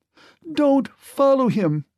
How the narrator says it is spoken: she cried out to the men

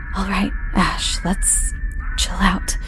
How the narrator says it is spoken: would whisper to herself

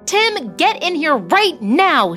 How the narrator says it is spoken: she yelled

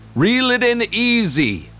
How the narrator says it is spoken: Grandpa Hal called out

